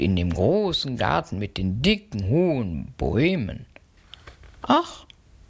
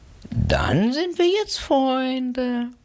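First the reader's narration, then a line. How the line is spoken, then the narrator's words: Pleased purring cat asking. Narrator (German): die Katze schnurrte erfreut und fragte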